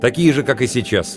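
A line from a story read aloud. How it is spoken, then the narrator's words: Somewhat sharp. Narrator (Russian): немного резко ответил я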